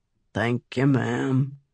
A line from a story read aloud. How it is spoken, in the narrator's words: with a mumbled